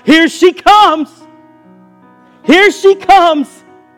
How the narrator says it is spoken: voices ready to take up the glad shout

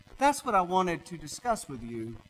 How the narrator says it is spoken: the doctor said

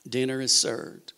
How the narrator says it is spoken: the master of the ceremonies announced calmly

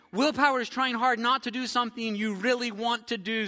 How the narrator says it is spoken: said Frog

